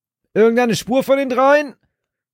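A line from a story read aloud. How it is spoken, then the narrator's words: Shouting over the wind. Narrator (German): rief er durch die nächste Bö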